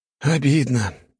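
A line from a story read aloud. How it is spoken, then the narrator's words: Sighing. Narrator (Russian): вздохнул Алекс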